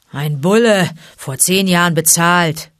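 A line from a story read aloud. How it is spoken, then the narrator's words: Pack growling. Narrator (German): knurrte das Rudel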